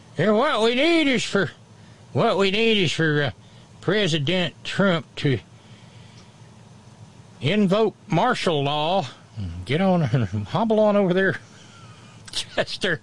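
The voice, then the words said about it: Deep Southern US accent. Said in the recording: “some dude with a deep southern accent”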